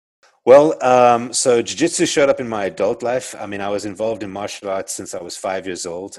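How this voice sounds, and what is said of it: South African accent. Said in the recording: “I grew up in South Africa, as you can tell from my accent. I'm South African”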